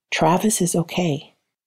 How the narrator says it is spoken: gentle whisper

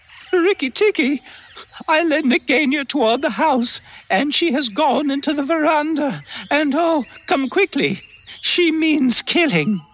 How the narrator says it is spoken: Darcy's wife screaming

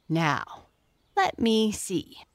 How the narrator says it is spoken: murmured Jessie

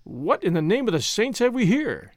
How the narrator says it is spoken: he exclaimed

